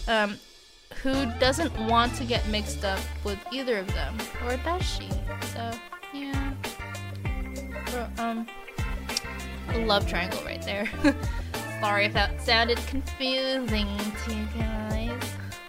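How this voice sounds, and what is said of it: Odd put-on voice. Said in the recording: “weird voice”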